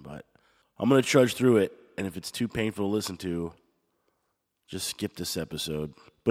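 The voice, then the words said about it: Voice slightly off, throat trouble. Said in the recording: “My voice sounds a little bit off today because I've been battling a little bit of a throat issue”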